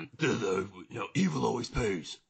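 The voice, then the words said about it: Throaty Batman voice, Christian Bale. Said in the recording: “The throaty Batman. ... I did the Bale.”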